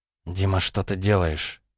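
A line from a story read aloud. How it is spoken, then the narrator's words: Quiet question. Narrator (Russian): тихо спросила девушка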